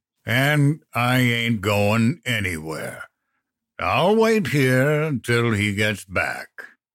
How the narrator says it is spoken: the ogre drawled

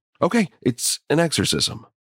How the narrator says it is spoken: Ryan blurting out

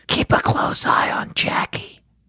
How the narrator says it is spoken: Christy whispered to Abby

